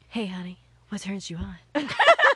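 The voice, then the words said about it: Husky, sultry put-on voice. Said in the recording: “This is my phone sex operator voice. ... You sound like an avid smoker. ... It's because I've been laughing.”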